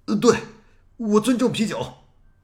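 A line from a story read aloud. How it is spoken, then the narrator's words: Loud. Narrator (Chinese): 他在图书馆里高声的说道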